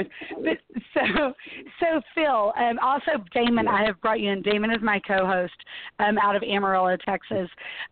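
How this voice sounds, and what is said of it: Hoarse, failing voice. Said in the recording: “I'm losing my voice... So I'm losing my voice.”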